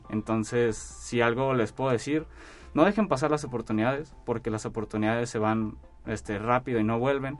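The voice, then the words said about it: Noticeable regional Mexican Spanish accent. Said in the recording (Spanish): “el acento se nota ... Yo te hacía como del norte”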